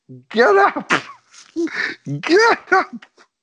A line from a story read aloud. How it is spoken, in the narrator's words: you just hear Terry screaming in the background